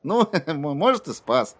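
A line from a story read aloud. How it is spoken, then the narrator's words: Laughing. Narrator (Russian): Кадберт рассмеялся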